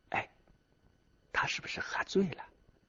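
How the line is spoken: Quiet woman's mutter. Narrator (Chinese): 这个女人小声的对男人嘟囔着

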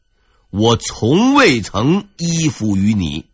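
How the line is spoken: Calm composed reply. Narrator (Chinese): 面对首辅张聪的怒吼，他从容不迫的这样回答

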